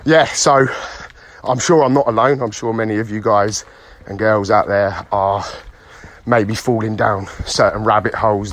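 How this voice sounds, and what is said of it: Out of breath while walking. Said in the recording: “sorry if I'm out of breath, I'm on a power walk this morning.”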